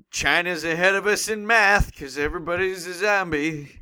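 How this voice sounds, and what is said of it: Nondescript conservative old man voice. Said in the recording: “Are you doing a Ronald Reagan impression? ... Nondescript conservative old man.”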